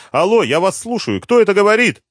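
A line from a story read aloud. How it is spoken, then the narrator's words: Shouting, unusually. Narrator (Russian): Она никогда раньше не кричала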